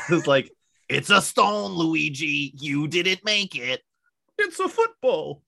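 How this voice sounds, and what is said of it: Imitates cartoon Mario voice. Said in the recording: “what they sounded like in the cartoon ... That's probably your best impression.”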